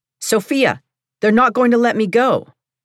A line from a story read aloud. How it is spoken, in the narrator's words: I heard Yan Ming yell from across the room